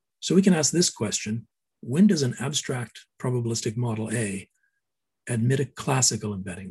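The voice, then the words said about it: Slightly hoarse voice. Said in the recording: “I'm getting a little hoarse”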